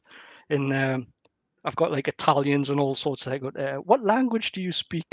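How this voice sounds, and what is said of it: Strong Geordie accent. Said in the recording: “crazy Geordie, you know, like, with my accent”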